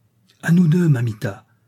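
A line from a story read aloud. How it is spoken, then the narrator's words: Radiant young man exclaiming. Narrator (French): s'écrie le jeune homme radieux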